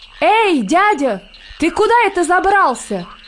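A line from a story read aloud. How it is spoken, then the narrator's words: Very loud frightened shout. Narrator (Russian): закричал комар-комарович на весь лес, да так громко, что даже самому сделалось страшно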